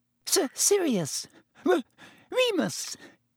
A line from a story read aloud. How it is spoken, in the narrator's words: Even Pettigrew's voice was squeaky